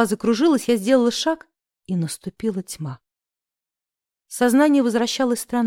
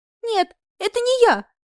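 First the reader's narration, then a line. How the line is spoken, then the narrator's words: Squeaky voice. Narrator (Russian): пропищала я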